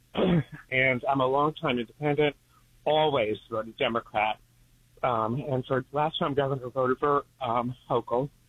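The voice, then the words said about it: Out of breath. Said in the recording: “I'm a little out of breath”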